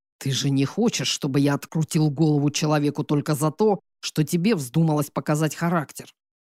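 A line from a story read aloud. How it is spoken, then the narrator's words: Through gritted teeth. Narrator (Russian): Процедил Бел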